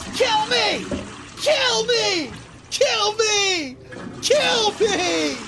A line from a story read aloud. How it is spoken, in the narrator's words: I can fucking scream back at him